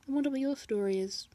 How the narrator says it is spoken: he said quietly

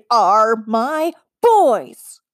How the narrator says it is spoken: she growled loudly

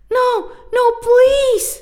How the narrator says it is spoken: the boy pleaded

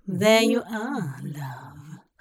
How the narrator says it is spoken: Hop murmured

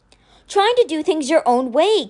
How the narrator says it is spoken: Kate cried

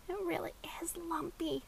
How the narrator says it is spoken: Maxie whispered

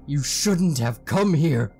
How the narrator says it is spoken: he shrieked at the top of his lungs

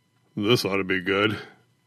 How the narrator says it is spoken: Smiederkamp muttered

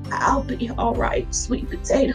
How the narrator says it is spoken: with a weak and raspy voice, she whispered

